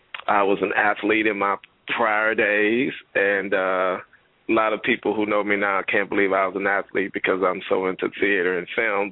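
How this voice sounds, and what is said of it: Slight Louisiana Southern accent. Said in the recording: “if you can hear my little accent, I don't really think I have an accent. Everybody tell me I have an accent ... from Louisiana originally, Alexandria, Louisiana”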